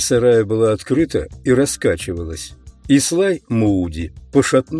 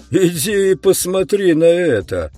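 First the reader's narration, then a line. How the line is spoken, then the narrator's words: Excited yell. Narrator (Russian): орал Мууди, и его лицо разрумянилось от возбуждения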